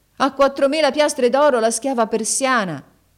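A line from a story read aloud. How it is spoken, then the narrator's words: Loud shout. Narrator (Italian): gridò ad alta voce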